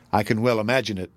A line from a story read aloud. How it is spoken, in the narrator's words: answered Miriam